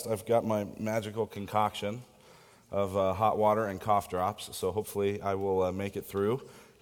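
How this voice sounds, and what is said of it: Sick, under-the-weather voice. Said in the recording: “hear it in my voice,... I'm a little under the weather”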